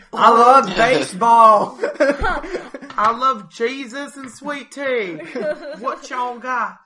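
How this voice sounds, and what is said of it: Exaggerated put-on Southern accent. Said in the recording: “give me your worst Southern accent”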